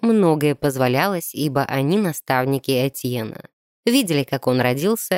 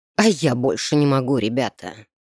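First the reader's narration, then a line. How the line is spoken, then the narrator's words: Hoarse wheeze. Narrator (Russian): прохрипел сэр Констан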